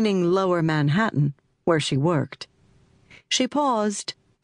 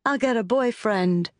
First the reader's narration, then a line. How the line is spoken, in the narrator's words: said